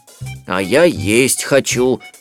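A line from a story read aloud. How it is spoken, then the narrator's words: Grumbling. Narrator (Russian): ворчал Берлиоз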